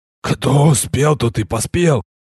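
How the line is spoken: Calm hoarse whisper. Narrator (Russian): хрипящим шепотом невозмутимо поведал я

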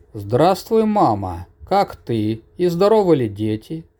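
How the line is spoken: Loud, worried announcement. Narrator (Russian): Громко на весь лес объявила свою озабоченную мысль Мирра

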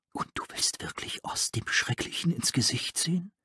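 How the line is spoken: Whisper. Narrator (German): einer von ihnen flüsterte

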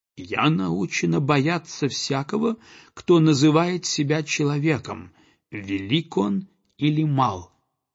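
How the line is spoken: Plain. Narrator (Russian): сказала она

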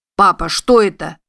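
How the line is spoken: Exclaiming. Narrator (Russian): воскликнул Джуда

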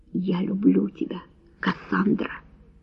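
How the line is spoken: Quiet. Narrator (Russian): тихо сказал Энтони

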